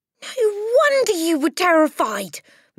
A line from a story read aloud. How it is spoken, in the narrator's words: Matilda cried